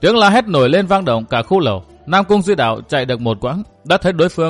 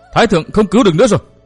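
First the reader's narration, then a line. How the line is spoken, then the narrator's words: Panicked scream. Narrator (Vietnamese): tiếng hét thất thanh của Hồng Quế Chi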